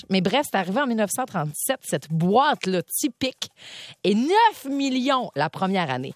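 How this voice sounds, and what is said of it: Lac-Saint-Jean Quebec French accent. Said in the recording (French): “notamment du Lac-Saint-Jean, vous avez entendu mon accent”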